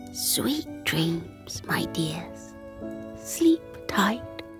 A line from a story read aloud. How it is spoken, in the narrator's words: Grandma Pattycake, in the dim bedroom light, whispered